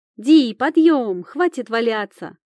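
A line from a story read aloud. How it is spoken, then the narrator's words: Shouted. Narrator (Russian): крикнула Камила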